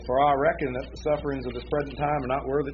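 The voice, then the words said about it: Put-on Southern American accent. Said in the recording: “in a southern accent,”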